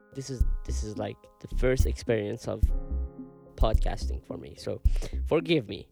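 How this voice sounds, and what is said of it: Non-native English accent. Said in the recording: “sorry for my pronunciation and accent ... I'm still insecure for my accent.”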